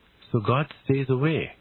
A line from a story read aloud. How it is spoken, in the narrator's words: Galahad said mournfully